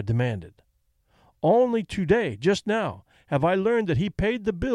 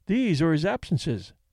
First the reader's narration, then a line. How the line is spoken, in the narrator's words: said May Sethby